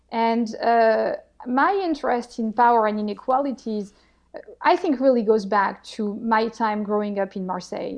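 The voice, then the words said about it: French accent in English. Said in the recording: “as you can hear to my accent, I'm not a pure Bostonian ... I'm a French-American Bostonian. I actually grew up in the south of France”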